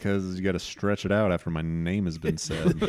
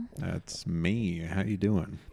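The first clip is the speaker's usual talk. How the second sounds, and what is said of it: Weird put-on sexy voice. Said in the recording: “this weird, sexy voice”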